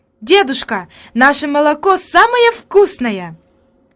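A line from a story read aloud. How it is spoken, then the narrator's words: Exclamation. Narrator (Russian): она воскликнула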